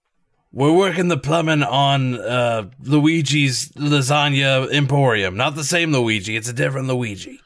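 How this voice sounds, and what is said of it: Gruff put-on Brooklyn accent. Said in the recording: “a gruff Brooklyn accent ... my rough Brooklyn accent ... That's actually not bad.”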